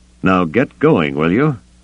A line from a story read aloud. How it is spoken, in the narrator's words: Gillespie laughed out loud